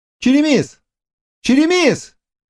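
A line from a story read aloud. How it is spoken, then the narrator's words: Shouting. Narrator (Russian): крикнул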